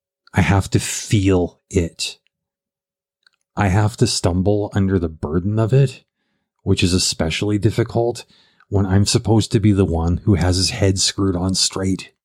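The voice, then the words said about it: Low, weary, downcast tone. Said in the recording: “you could tell by the tone of voice, I'm not doing good right now”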